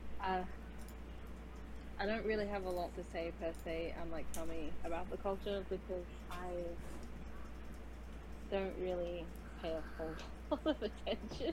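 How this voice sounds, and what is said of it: Australian accent. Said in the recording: “I'm an Australian, as you can't tell by my very wonderful accent.”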